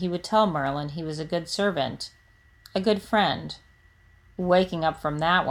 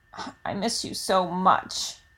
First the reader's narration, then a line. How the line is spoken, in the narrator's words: he croaks out